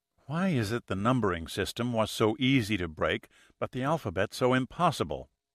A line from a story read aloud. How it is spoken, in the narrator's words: She muttered irritably